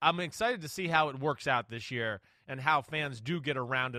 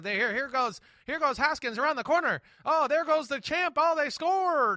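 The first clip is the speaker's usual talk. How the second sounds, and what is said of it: Old-time football announcer impression, high-pitched. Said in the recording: “That was a pretty good impersonation ... That's pretty good. That wasn't bad. ... the only impersonation I've ever heard you do that doesn't sound like Phil Simms ... It's like Phil Simms after you took a shot of a helium balloon”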